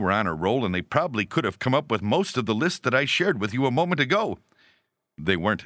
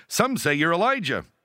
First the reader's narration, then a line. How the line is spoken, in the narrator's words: the disciples, who like school children that for once are sure they know the right answer, eagerly reply